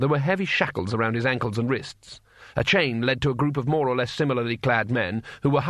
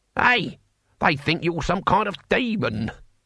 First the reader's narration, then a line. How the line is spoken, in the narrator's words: cackled the old man